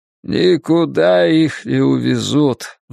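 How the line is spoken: Sighing. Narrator (Russian): вздохнул Соумс

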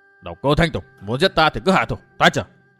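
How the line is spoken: Old man's mutter. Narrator (Vietnamese): Lão lẩm bẩm

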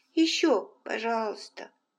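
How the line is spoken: Sleepy request. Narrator (Russian): сонно попросил

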